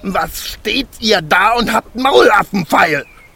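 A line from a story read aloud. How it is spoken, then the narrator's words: Dwarf screaming in rage. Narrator (German): schrie der Zwerg und sein aschgraues Gesicht war zinnoberrot vor Zorn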